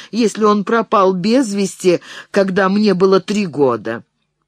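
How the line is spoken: Laughing. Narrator (Russian): засмеялась

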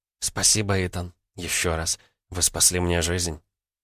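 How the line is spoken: Quiet. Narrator (Russian): тихо сказала

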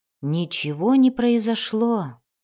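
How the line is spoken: Disappointed whisper. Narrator (Russian): разочарованно прошептал он

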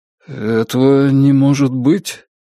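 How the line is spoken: Uncertain. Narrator (Russian): как-то неуверенно произнес старший офицер Риона лейтенант Исаков

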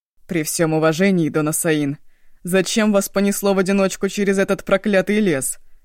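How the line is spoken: Growled. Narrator (Russian): прорычал Шанго

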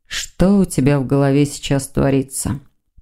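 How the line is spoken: Muttering. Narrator (Russian): пробормотал Сазонов

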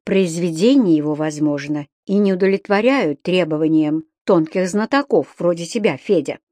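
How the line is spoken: Soft, reasoned objection. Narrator (Russian): рассудительно мягко возразила вьюга

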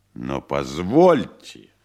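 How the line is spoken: Resonant voice. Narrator (Russian): звучным голосом сказал Поплавский

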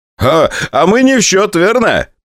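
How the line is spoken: Pilot laughing. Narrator (Russian): посмеялся летчик от конструкторского бюро Илюшина

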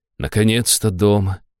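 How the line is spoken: Happy sigh. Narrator (Russian): счастливо вздохнула Аштира

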